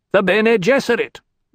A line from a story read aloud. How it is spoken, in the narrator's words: Mirlat snapped